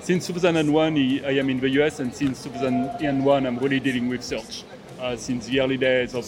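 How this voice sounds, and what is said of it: Strong French accent. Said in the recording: “hence the accent ... Strong French accent.”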